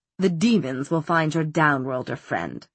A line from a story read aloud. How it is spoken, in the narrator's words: said Valentine, in his cold, still voice